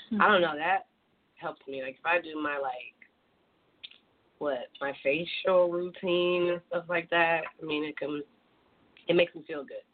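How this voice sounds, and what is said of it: Partly lost, hoarse voice. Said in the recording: “My voice is gone a little bit”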